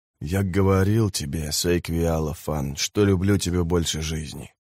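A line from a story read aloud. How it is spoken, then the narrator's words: Whispered. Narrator (Russian): прошептал он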